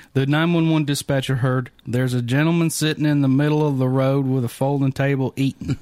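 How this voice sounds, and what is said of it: Put-on Florida Southern accent. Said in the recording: “Let's see if I can do a Florida accent.”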